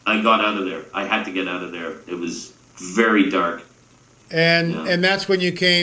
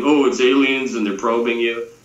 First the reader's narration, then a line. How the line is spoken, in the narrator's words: laughing